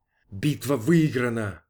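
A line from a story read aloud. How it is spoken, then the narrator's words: Whisper. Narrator (Russian): прошептал верховный главнокомандующий Феттерер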